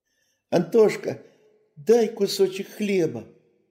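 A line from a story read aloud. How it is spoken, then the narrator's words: Shouting from afar. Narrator (Russian): закричал он уже издали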